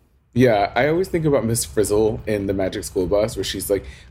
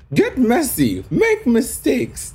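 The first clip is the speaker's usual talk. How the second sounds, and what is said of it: Miss Frizzle impression. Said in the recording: “That's a terrible Miss Frizzle impersonation.”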